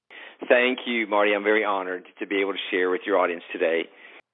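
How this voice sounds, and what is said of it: Texas accent. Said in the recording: “I think you'll hear his Texas accent”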